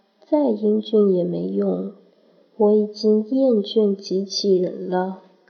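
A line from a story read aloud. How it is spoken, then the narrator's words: Cold, impatient. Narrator (Chinese): 洪老大似乎不耐烦，冷冷道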